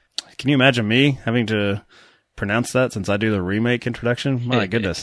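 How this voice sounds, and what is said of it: Kentucky accent. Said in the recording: “My Kentucky accent”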